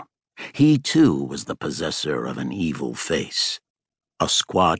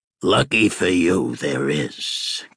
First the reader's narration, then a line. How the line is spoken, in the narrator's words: growled Rowdy